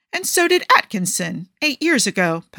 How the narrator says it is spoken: Pundit Two snaps back

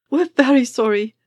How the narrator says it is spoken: one of them blurted

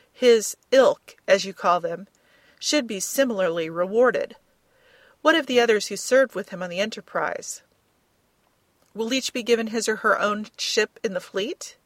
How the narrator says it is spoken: Barnett laughed

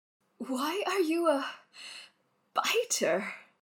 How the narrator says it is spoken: Wayne whines between gasps

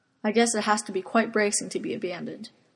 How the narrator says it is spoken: Arthur murmurs

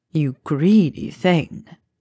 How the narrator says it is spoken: he purred

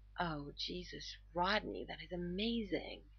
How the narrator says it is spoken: John moans

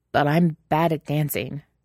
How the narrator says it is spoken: Shane blurts out before he can help himself

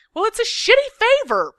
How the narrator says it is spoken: Patrick yells

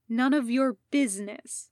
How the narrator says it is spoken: Jason snapped

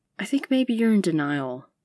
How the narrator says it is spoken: Marcy blurts

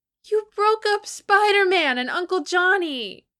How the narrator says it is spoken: Franklin wailed, looking very near tears

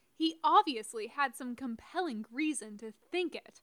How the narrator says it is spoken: Lilith snapped back

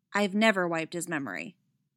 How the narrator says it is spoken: she says flatly

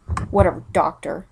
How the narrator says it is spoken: he snarls

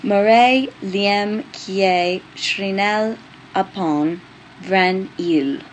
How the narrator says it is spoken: Julian read aloud, slowly and carefully

